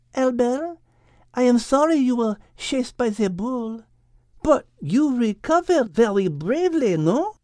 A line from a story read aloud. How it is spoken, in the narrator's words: Liz said, purring